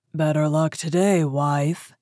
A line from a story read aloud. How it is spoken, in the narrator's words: he cried, and his voice shook the house